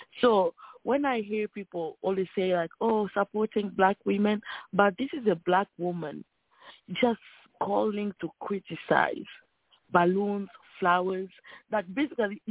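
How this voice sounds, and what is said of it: Slight French accent. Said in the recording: “I speak French, okay? So I can have a little bit accent.”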